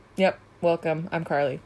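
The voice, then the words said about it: Robotic, unnatural delivery. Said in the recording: “you sound like a robot every time you say that? I'm”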